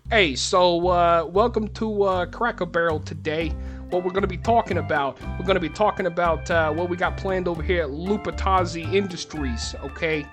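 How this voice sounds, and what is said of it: Put-on Brooklyn accent. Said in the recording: “You're going to have to do a Brooklyn accent ... Let's do a business lunch with a Brooklyn accent.”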